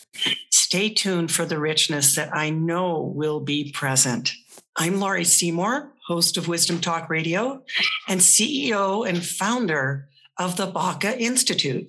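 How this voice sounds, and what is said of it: Slightly froggy, hoarse voice. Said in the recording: “my voice is a little froggy this morning”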